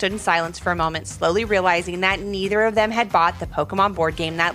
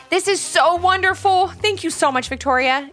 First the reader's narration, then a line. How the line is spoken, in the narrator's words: exclaimed Levi's mom